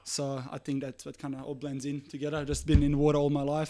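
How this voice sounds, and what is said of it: Strong Serbian accent in English. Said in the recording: “you're not from Australia. You've got a bit of an accent ... accent is still pretty strong. Origins from Serbia.”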